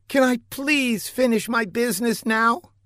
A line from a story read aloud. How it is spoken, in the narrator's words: pleaded the rather embarrassed beauty